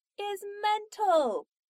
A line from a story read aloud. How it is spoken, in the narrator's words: Donna shouted at the door